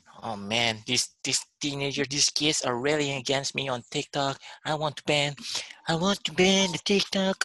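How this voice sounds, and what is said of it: Imitates another person's voice. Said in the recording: “That was a bad impression.”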